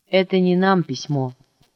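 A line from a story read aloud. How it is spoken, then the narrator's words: Plain. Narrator (Russian): сказал, наконец, Мишка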